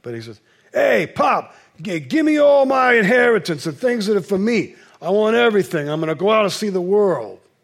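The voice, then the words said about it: Weak put-on New York accent. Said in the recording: “I'm going to do a New York accent now... I don't do a very good New Yorker.”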